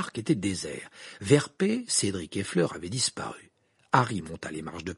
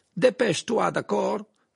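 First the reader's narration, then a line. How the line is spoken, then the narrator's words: Shouted. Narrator (French): cria Croum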